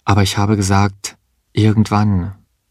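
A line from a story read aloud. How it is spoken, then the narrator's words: Calm. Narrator (German): sagte sie ruhig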